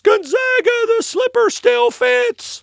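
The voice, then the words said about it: Weak Gus Johnson impression. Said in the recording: “That was not a very good Gus Johnson impression”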